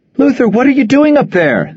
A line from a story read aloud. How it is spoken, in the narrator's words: Nora yelled as she rushed through the crowd